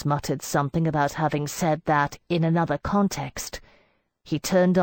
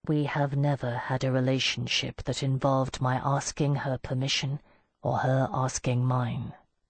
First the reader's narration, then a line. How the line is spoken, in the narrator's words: Mandelstam said very quietly